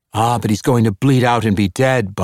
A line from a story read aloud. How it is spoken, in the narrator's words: Bunny Charlie cried